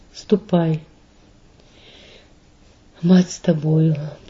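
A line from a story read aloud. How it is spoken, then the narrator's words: Weak grief-stricken whisper. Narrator (Russian): прошептала она слабеющим от горя голосом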